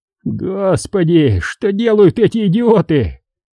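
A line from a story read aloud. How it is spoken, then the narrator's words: Groaning man. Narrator (Russian): простонал господин инженер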